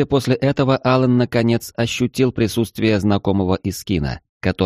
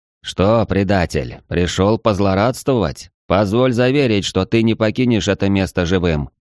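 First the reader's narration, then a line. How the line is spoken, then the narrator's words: Harsh threatening tone. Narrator (Russian): Резким и угрожающим тоном проговорил охранный Искин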